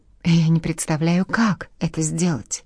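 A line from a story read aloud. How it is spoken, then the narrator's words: Breathless exhale. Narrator (Russian): выдохнула Казалет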